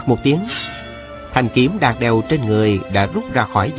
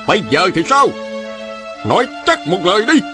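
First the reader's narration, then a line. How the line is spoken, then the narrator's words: Angry shout. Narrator (Vietnamese): Huệ Dương trừng mắt giận dữ quát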